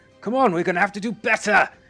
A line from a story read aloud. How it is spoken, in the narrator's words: he shouts and says